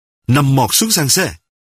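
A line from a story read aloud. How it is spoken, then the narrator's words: Harsh bark. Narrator (Vietnamese): quát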